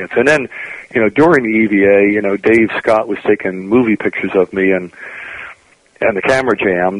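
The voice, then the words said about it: Hoarse, strained voice. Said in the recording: “my voice is a little off peak ... you said you were just coming down with some laryngitis”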